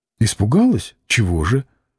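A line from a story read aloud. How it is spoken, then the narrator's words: Plain. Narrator (Russian): спросила она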